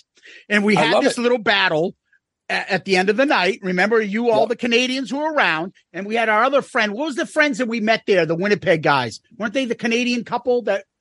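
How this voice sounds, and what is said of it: Boston accent. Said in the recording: “mock my Boston accent”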